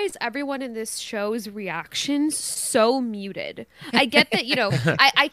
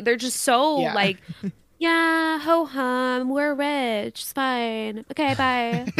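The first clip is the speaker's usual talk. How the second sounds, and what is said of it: Bored, flat impression of Serena. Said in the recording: “a good Serena impression, ... Yeah, that was really good.”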